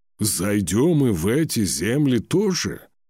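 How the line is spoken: Whistling breath, raised voice. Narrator (Russian): Торгни выдохнул со свистом и повысил голос

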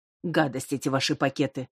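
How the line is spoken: Old woman grumbling. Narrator (Russian): ворчала бабуся

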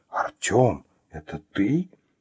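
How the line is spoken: Shocked whisper. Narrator (Russian): потрясенно прошептала она

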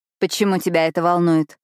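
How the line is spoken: Angry question. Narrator (Russian): спрашиваю гнев усиливается

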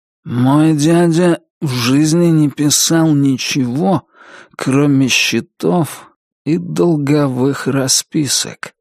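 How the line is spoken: Slow, sleepy voice. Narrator (Russian): сказал Туз все тем же медленным, сонным голосом

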